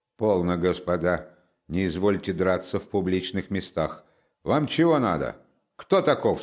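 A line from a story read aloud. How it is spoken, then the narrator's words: Stern. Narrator (Russian): строго обратился он к Раскольникову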